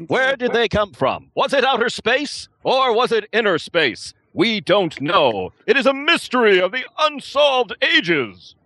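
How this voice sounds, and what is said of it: 1950s sci-fi announcer voice. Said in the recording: “he's got a good radio voice ... Give me your best 1950s narrator sci-fi announcer voice.”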